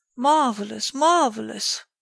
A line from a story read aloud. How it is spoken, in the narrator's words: exclaimed Ganimard